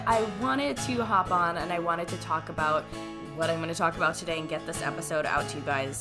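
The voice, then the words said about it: Sick-sounding voice. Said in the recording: “if I sound a little sick today, it's because I am a little sick today”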